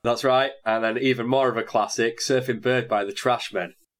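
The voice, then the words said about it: Congested, blocked-nose voice. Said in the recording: “unfortunately I'm still bunged up”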